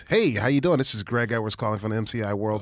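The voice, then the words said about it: Fast upbeat telemarketer voice. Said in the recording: “I put on like a speedy, like a speed voice... I guess I did put on like a a whitish... white speedy voice”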